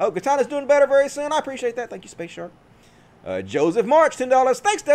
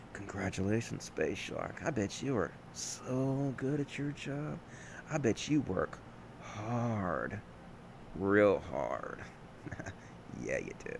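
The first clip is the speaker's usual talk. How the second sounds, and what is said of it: Sexy, sultry voice. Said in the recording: “Please congratulate me in your sexy voice.”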